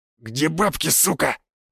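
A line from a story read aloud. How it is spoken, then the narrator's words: Growled. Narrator (Russian): прорычал Лесной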